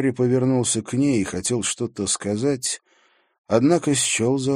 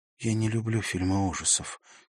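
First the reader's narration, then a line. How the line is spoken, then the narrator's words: Quiet. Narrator (Russian): тихо сказала она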